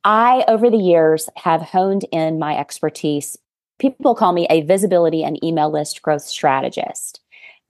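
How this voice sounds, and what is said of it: Arkansas accent. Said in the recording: “I am a business and sales coach from Arkansas. I'm sure you can hear my accent.”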